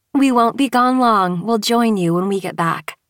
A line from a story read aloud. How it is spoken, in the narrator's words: Kate said